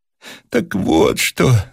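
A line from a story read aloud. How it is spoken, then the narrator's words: Breathless muttering. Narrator (Russian): задыхаясь, забормотал он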